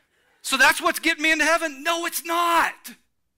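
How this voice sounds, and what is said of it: Screaming, passionate shouting. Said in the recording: “sorry I'm screaming. I'm sorry I'm passionate”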